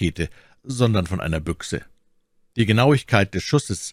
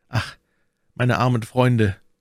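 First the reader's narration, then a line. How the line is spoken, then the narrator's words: Sighing. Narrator (German): seufzte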